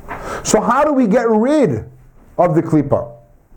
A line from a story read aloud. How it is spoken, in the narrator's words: He yelled at them